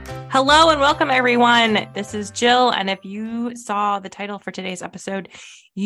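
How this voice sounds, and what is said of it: Usual voice. Nothing is said of it.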